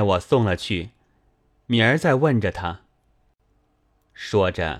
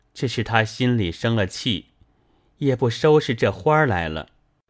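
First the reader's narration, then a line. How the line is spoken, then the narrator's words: Sighing. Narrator (Chinese): 叹道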